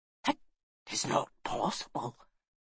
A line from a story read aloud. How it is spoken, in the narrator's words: whispered